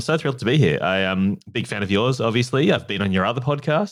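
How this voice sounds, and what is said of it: Australian accent. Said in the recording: “obviously you can tell from my accent, I'm from Australia”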